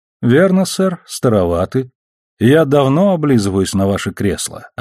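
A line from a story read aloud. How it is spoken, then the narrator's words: Plain. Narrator (Russian): ответил Холден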